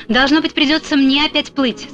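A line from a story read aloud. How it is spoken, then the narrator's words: Plain, lion. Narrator (Russian): сказал лев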